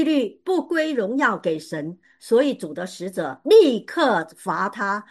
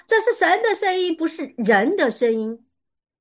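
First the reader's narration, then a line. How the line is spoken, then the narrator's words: Crowd shouting. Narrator (Chinese): 百姓就喊着说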